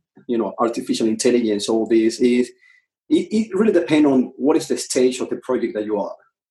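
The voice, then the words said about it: Speaks with a noticeable accent. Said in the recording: “never recognized my accent ... my daughters always make fun about my accent”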